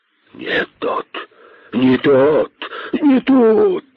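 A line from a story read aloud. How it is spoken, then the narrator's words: Snakes hissing in chorus. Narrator (Russian): зашипели удавы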